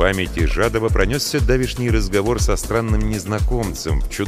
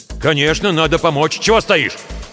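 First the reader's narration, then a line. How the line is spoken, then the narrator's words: Snapping, irritable. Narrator (Russian): Огрызнулся барин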